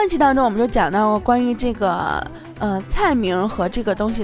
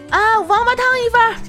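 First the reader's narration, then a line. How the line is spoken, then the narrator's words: Calling out loudly. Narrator (Chinese): 这个服务员就向后厨喊了一声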